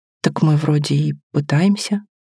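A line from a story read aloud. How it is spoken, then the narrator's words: Uncertain. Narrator (Russian): сказал Тин, но как-то неуверенно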